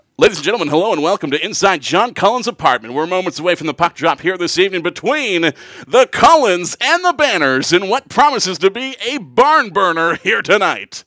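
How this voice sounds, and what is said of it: Hockey broadcast announcer voice. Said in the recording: “automatically reverted into like my hockey broadcast voice ... a hockey voice is like ... That's the good hockey voice.”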